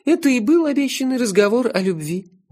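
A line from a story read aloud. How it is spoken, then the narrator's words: Dreamy purr. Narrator (Russian): мечтательно промурлыкала она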